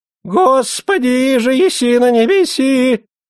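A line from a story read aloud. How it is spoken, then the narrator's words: High-pitched shout. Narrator (Russian): закричал тонким голосом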